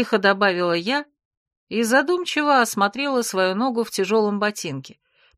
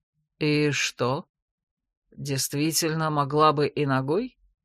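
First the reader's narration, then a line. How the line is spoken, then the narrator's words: Calm, curious question. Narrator (Russian): Вдруг, на удивление спокойно и с интересом, спросила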